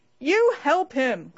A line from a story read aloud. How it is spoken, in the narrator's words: cried all the group, breaking into shouts of laughter